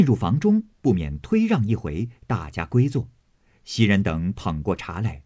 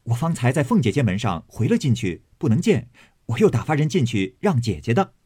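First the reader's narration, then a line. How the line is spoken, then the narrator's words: Laughing. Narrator (Chinese): 宝玉 笑说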